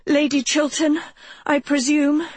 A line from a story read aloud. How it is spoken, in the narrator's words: she panted